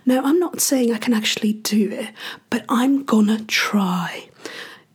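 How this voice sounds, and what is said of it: Attempted London English accent. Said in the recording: “trying to do this little experiment to see if I can make my accent great again... London English”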